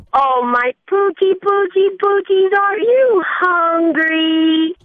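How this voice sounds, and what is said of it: Silly pet-talk voice. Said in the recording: “talk to their pets in, like, a weird voice”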